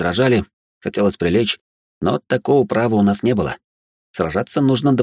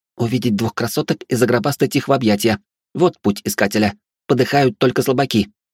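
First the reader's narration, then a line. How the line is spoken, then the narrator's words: Snapping retort. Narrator (Russian): огрызнулась Велея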